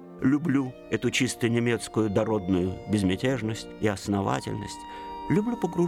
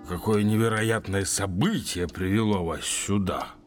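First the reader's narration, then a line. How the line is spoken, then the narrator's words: Surprised officer's deep voice. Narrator (Russian): пробасил удивленный майор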